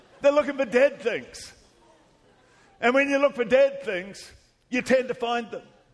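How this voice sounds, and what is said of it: Australian accent. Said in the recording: “why do we have an Australian? I can't even understand what he's saying... if you're not used to an Australian accent... everybody talks like this”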